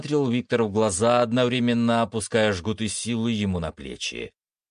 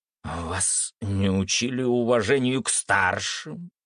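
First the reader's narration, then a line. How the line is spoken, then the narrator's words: Old man hissing. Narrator (Russian): прошипел старик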